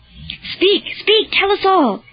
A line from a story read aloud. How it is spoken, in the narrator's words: cried Honorius